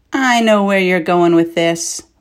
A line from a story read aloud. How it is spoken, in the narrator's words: Morik said